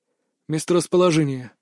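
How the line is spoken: Calm. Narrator (Russian): спокойно произнес Захар

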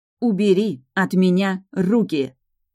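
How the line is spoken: Growl. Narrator (Russian): прорычала я

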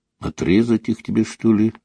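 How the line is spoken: Muttered. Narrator (Russian): пробормотал он

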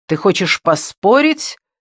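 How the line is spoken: Irritated raised voice. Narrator (Russian): Гай раздраженно повысил голос

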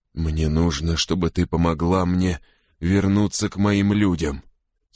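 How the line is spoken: Hoarse rasp. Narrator (Russian): снова хрипит он

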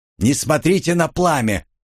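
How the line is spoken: Shouting. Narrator (Russian): выкрикнул я

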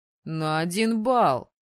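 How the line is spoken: Tight-lipped scoff. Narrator (Russian): Поджав губы, хмыкнул Мэтт

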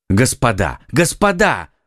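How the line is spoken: Exclaiming. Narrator (Russian): воскликнул Д'Артаньян

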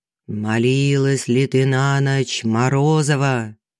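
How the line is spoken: Menacing question. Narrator (Russian): лицо Колесникова, который грозно спрашивал

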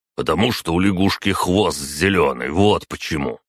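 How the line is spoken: Grumbling. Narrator (Russian): проворчал Марат

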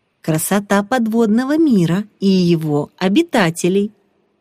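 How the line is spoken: Cheerful. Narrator (Russian): весело проговорил Стас

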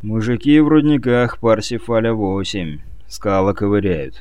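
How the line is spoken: Grim. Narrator (Russian): мрачно заявил Весло

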